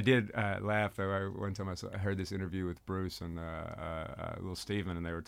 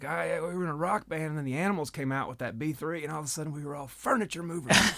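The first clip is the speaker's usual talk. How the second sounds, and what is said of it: Imitates another person's voice. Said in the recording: “terrible Bruce impression”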